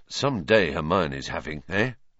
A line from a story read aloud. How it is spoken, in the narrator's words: Ron muttered to Harry, looking awed